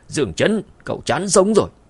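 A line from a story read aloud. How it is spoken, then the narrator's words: Angry. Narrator (Vietnamese): Sendai Kabuto giận dữ nói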